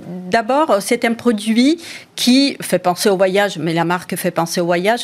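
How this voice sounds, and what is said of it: Italian accent. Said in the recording (French): “Votre accent italien”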